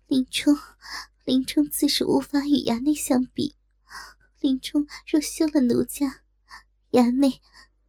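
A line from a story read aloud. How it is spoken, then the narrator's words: Aroused coquettish reproach. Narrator (Chinese): 一时情动不已，咬唇嗔道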